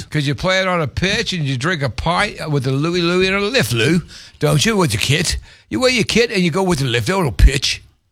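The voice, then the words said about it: Bad put-on British accent. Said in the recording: “That's the worst accent ever.”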